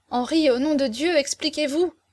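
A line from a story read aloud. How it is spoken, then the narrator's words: Young woman exclaiming. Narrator (French): s'écria la jeune fille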